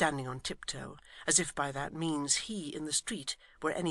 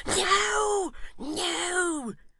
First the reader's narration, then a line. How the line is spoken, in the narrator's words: cried Mr